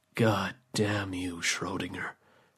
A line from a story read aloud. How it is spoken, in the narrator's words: the man said quietly